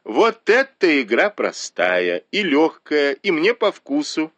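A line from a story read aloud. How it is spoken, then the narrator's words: Laughing. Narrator (Russian): засмеялась Сян Юнь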